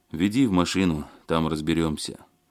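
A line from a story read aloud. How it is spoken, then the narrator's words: Sighing. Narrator (Russian): вздохнул Алексей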